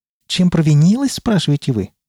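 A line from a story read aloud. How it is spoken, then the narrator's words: Exclamation. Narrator (Russian): воскликнул он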